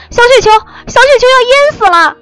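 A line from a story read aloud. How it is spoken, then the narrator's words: Earth-shaking frantic scream. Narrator (Chinese): 他惊天动地的狂喊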